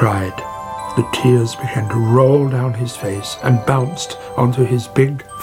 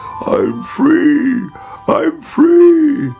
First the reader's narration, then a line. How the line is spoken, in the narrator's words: he croaked